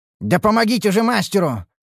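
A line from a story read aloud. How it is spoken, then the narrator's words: Barked. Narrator (Russian): рявкнул я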